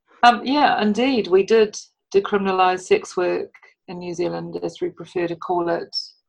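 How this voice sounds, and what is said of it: Noticeable New Zealand accent. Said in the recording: “I hope you can follow what I say. And the accent.”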